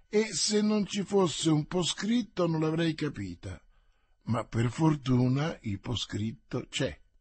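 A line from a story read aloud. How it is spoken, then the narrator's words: Murmuring. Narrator (Italian): mormorò D'Artagnan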